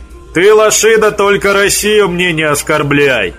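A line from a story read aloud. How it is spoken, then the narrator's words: Mock-menacing, joking. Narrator (Russian): Грозно шутливо Петр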